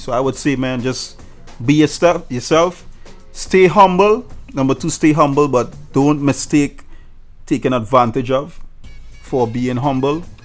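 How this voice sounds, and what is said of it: Trinidadian accent. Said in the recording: “my Trinidad accent ... I'm standing out because I'm talking like this ... They love the accent”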